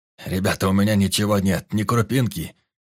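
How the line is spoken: Frightened old man mumbling. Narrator (Russian): Испуганно пробормотал старик

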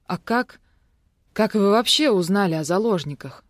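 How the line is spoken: Strained forced speech. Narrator (Russian): выдавила из себя я

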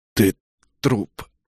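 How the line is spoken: Strained, forced out. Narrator (Russian): выдавил

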